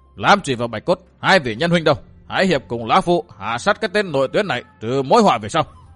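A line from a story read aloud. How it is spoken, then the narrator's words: Old man, raised voice. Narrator (Vietnamese): Lão cao giọng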